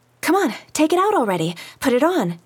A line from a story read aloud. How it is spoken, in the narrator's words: Lina was saying impatiently